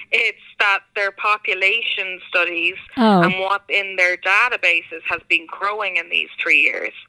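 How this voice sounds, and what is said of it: Irish accent. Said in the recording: “I don't think that's because I've been living in America and I'm starting to lose my accent ... Irish”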